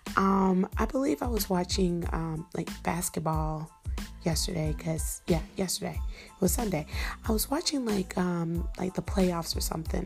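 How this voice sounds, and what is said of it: Unusually deep, lowered voice. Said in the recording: “my voice is a few octaves lower”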